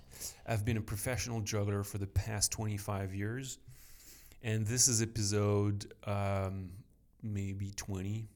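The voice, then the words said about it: French accent in English. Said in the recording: “I'm French. Sorry for the accent.”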